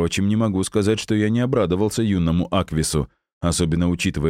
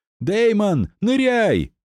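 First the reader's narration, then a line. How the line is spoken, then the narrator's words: Shout. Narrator (Russian): крикнул Джулиан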